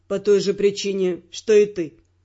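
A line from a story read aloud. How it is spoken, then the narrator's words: Calm. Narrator (Russian): спокойно ответил Родрик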